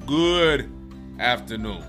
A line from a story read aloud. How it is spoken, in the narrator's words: Lion roared